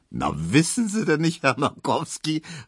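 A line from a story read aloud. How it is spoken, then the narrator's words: Laughing call. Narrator (German): rief Tesch lachend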